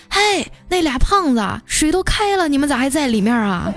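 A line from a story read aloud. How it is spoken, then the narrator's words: Old woman shouting. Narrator (Chinese): 那奶奶呀对我喊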